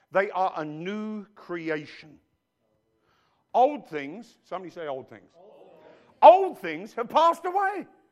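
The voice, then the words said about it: English accent. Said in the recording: “I've still got an English accent.”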